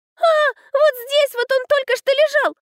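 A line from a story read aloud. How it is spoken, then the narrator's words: Loud wailing yell. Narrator (Russian): завопила Котлетова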